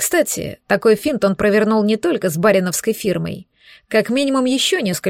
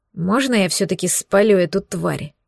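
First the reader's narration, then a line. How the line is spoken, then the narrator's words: Furious growl. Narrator (Russian): прорычал окончательно взбешенный подлостью мерзавца Мадо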